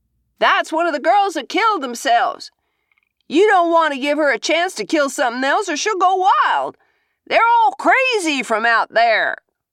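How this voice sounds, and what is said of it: Desperate high old man's voice. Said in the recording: “Desperate high voice. Voice of an old man.”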